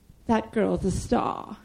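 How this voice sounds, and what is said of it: Imitates another person's voice. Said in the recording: “doing a terrible Jeffrey impression”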